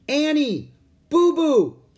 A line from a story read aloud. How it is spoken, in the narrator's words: he shouted